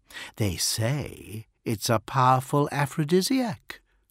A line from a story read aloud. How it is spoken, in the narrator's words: she purred